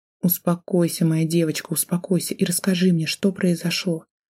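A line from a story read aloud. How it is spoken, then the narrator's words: Soothing whisper. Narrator (Russian): прошептала она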